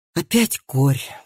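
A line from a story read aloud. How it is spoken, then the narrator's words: Sighing. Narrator (Russian): вздохнул Матиас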